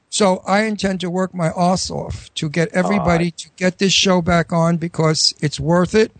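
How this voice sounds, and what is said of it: New York Astoria accent. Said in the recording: “my New York accent, it comes back whenever I know somebody's from New York. A little bit. I've got an Astoria accent. Brooklyn Astoria.”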